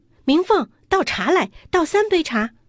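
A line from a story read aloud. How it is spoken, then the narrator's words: Loud call. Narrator (Chinese): 不觉得高声叫道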